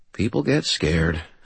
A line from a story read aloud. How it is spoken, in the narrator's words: I murmured